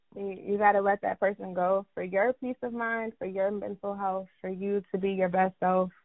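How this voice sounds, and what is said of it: Valley girl accent. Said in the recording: “I love your accent ... I feel like I'm getting the valley.”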